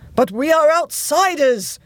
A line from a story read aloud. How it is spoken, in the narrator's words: cried Lord Rump